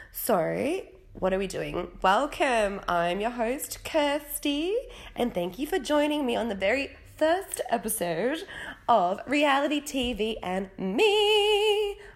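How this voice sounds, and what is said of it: Congested voice from a cold. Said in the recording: “I have a cold. That's why that sounded like that.”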